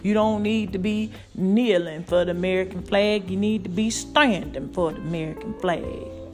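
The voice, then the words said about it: Put-on redneck voice. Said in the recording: “I got to do my redneck voice.”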